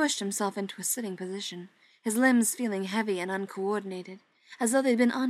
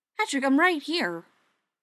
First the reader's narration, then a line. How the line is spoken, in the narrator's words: Joe exclaimed